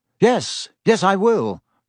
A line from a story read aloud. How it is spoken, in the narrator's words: said Lupin